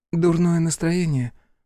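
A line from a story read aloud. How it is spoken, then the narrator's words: Female sigh. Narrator (Russian): вздохнула Беатрис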